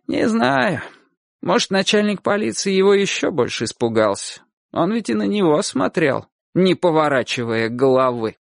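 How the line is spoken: Heavy sigh. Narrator (Russian): тяжело так вздохнула и говорит

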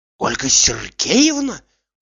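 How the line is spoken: Terrified whisper. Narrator (Russian): в ужасе шептал

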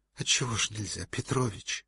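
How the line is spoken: Pleading childlike voice. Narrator (Russian): сказал он почти умоляющим голосом ребенка

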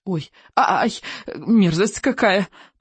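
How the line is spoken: Moaning, terrified squeal. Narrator (Russian): простонал рыбий ног, взвизгнув от ужаса

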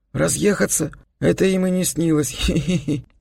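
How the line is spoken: Giggling. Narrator (Russian): засмеялся Вестман

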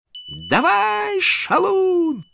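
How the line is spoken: Yelling. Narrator (Russian): завопила она

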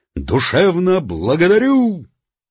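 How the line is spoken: Shouted. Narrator (Russian): Начальник милиции крикнул

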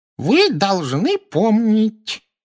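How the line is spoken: Squeaky voice. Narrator (Russian): пропищал малорослый профессор Флитвик

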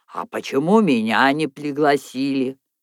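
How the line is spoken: Indignant. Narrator (Russian): он возмущенно произнес

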